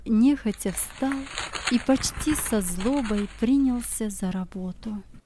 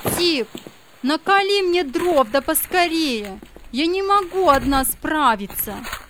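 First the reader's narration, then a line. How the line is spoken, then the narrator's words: Commanding shout. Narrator (Russian): Мария закричала повелительным тоном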